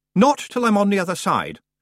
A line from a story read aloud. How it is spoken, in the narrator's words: Roland said firmly